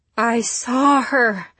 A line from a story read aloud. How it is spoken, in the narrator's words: gasped Nancy